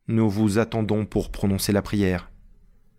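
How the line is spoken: Firm voice. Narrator (French): dit Georges d'une voix ferme

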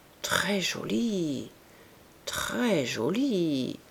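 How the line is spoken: Murmured, at a loss. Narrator (French): murmura Rougon, ne sachant que dire

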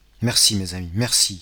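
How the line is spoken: Deeply moved exclamation. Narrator (French): s'écria monsieur Morel, touché jusqu'au cœur

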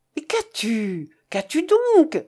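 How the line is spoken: Father exclaiming. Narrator (French): s'écria son père

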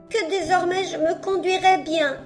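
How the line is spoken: Sobbing. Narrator (French): lui répondit entre deux sanglots la marionnette

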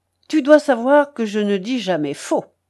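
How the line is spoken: Curt, piqued retort. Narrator (French): répliqua Roller d'un ton sec et piqué

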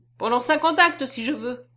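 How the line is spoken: Impetuous childlike exclamation. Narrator (French): s'écria-t-il, rendu à toute son impétuosité d'enfant

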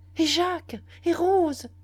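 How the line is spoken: Shouted. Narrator (French): criai-je

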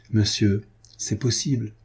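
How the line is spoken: Timid reply. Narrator (French): répondait timidement Carquefou

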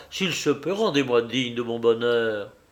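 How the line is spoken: Rapturous exclamation. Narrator (French): s'écria-t-il avec transport

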